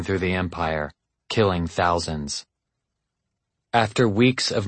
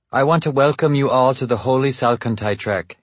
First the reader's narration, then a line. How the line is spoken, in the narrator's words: said